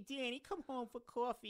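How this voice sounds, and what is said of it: Intense Long Island Jewish accent. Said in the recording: “My mom's accent is like wild. It's so intense. ... she's like a Long Island Jewish”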